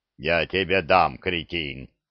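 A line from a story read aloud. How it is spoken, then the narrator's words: Deep booming bass. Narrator (Russian): прогудел кто-то густым басом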